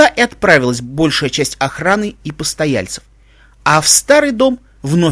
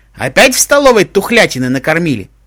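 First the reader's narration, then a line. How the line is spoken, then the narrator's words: Old woman's loud snort. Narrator (Russian): Старуха громко фыркнула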